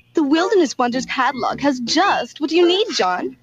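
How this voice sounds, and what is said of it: Woman speaking in an unusual accent. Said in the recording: “What is that accent?”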